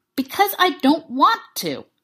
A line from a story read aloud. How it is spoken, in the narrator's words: Clint snapped, finally fed up